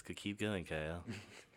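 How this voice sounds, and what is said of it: Spooky voice. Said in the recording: “This is my spooky voice.”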